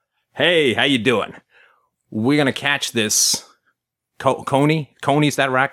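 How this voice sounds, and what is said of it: Imitates an American advisor's voice. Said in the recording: “my impression of an American advisor in Uganda”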